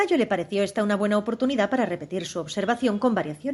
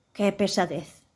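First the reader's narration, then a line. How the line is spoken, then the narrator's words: Muttering to oneself. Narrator (Spanish): masculló para sí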